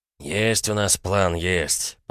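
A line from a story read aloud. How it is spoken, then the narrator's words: Grumbling. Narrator (Russian): проворчал Тимоха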